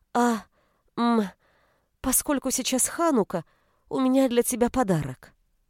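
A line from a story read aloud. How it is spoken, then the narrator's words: Halting, stammering speech. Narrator (Russian): Фрида, запинаясь, произнесла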